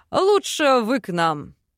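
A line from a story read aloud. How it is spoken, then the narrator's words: Amused snort. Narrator (Russian): хмыкнул Сильвар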